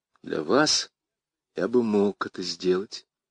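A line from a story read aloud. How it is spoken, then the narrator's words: Quiet, discreet speech. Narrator (Russian): Я говорю тихо, так, чтобы не слышали сестры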